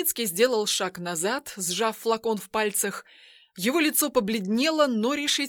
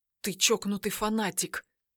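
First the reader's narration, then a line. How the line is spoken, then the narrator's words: Whisper. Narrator (Russian): прошептал Тайницкий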